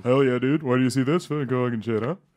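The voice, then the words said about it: Imitates another person's voice. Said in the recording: “What's that impression? ... Shane Gillis ... Oh, that's bad.”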